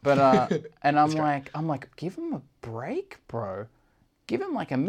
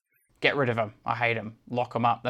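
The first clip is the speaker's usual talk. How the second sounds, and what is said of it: Imitates another person's voice. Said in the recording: “That's a bad impression of John Wood.”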